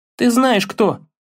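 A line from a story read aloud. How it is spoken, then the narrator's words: Annoyed exclamation. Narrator (Russian): воскликнул Атрей с досадой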